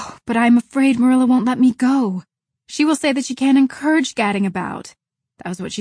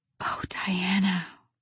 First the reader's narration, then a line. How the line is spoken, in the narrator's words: whispered Anne